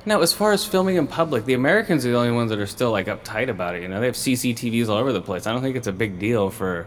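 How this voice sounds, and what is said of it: Usual voice. Nothing is said of it.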